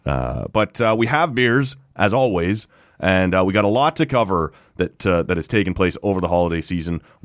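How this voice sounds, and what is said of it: Rough, phlegmy voice. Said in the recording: “my voice is currently displeasing... Lung butter”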